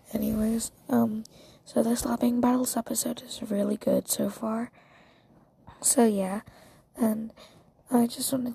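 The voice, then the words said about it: Sleepy, drowsy voice. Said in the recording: “I sound really sleepy. It's because in Australia it's like 3 a.m. right now”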